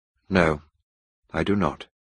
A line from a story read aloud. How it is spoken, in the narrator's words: replied coldly